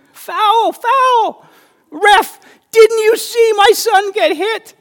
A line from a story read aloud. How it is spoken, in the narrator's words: his mother would scream